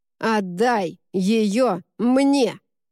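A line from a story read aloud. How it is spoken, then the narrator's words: Barked. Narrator (Russian): рявкнула Сен-Клер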